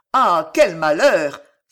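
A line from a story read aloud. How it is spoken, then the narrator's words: Joyful cry. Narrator (French): s'écria Landry avec une joie qui, cette fois, était des plus sincères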